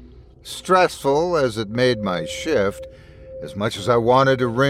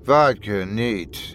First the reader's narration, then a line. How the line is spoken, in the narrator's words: he muttered with an inkling of drowsiness